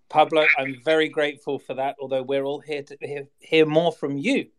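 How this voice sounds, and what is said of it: Soothing English accent. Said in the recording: “just hearing your voice, just makes me feel better. It's so soothing. ... Is it just the English accent? Is it English? ... every word that comes out of your mouth makes it sound more so distinguished”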